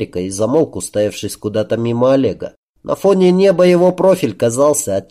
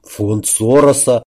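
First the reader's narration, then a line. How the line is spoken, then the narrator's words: Gruff mutter. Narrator (Russian): буркнул Олег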